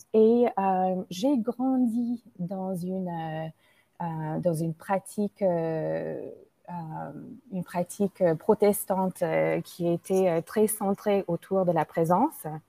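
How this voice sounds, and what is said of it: American accent speaking French. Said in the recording (French): “vous allez euh, entendre mon accent ... je suis une Américaine d'origine indienne qui vit en France depuis 20 ans”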